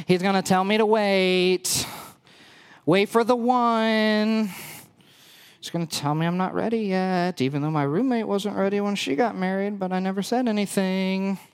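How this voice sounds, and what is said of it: Basic girl voice. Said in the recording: “I'm going to try to get my best basic girl voice on here for you”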